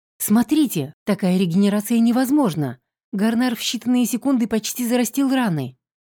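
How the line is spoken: Exclaimed. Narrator (Russian): воскликнул кто-то в толпе

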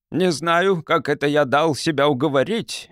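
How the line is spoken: Grumbling. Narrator (Russian): разворчался генерал

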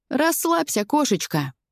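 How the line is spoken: Cheerful, tossed off. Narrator (Russian): весело кидает Дима

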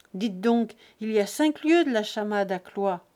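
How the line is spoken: Grumbling reply. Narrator (French): répondit-il au grognement

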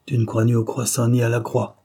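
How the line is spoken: Sneering. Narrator (French): ricana l'autre

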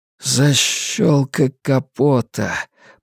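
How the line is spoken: Muttering. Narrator (Russian): пробормотал Стью

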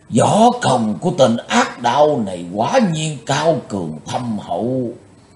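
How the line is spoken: Startled exclamation. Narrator (Vietnamese): bật thốt lên

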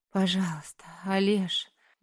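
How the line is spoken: Overwhelmed moan. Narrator (Russian): Не выдержав, простонала

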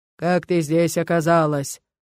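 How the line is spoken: Deafening monster thunder. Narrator (Russian): Прогремело чудовище, и у меня заложило уши

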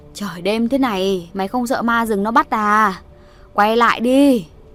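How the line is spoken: Old woman straining to shout. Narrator (Vietnamese): bà Chắn cố gào nói theo

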